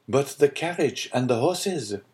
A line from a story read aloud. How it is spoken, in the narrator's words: said Franz